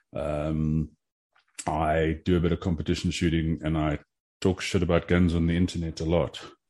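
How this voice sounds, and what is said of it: South African accent. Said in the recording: “You may have noticed by my accent that I'm from a little bit further south than you are. I'm a South African”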